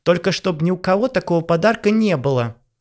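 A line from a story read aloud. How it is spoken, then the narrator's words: Shouted after someone. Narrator (Russian): Крикнула ему вслед Ванесса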